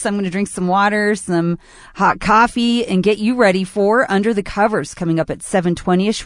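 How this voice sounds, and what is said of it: Hoarse, strained voice. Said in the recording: “kind of losing my voice.”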